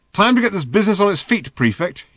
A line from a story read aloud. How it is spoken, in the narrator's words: he snapped